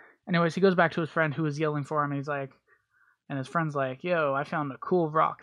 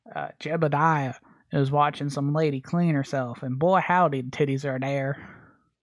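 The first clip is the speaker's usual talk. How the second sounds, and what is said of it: Put-on country accent. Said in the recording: “I did my little country accent. It was pretty good, I think”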